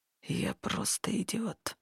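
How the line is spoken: Quiet. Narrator (Russian): произнёс Хартат негромко

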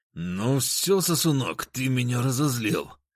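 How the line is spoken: Angry, through gritted teeth. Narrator (Russian): Процедил он сквозь зубы

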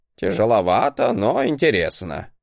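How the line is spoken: Grunting chuckle. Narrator (Russian): хмыкнул Гринальв

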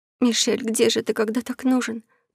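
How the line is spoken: Impressed whisper. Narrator (Russian): прошептала Элли, впечатленная действиями свекрови и слуг

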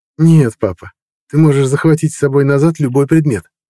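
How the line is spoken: Cheerful. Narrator (Russian): весело ответил Мартин

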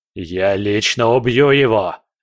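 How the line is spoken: Roaring. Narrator (Russian): взревел он

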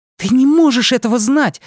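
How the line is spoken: Heated exclamation. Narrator (Russian): с таким жаром воскликнула Беверли

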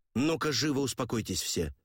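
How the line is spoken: Sharp shout. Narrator (Russian): прикрикнул я

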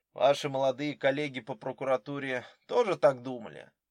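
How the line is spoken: Grim question. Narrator (Russian): мрачно поинтересовался Дронго

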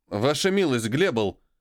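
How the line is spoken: Interrupting snort. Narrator (Russian): Тот хмыкнул, перебивая его

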